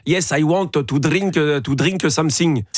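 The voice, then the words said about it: Smooth flowing French accent in English. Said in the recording (French): “C'est coulant. ... Et c'est coulant, ça. ... Ça, c'est un accent français. ... C'est un accent français coulant.”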